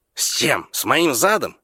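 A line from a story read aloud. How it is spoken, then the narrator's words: Angry reply. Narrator (Russian): сердито отозвался Тимолти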